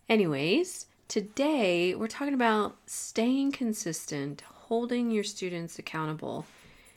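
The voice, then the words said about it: Nasal, congested voice. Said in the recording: “I'm pushing through a lovely cold, so if I sound a little nasally”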